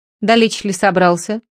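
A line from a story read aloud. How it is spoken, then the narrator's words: Plain. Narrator (Russian): спросил Одноногий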